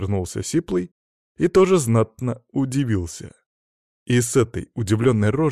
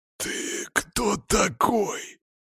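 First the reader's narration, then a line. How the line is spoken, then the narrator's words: Drawn-out, stunned voice. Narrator (Russian): протянул Сиплый так, словно призрака увидел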